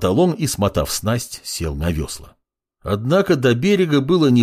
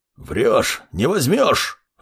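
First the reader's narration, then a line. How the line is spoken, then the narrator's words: Growled. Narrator (Russian): рыкнул автор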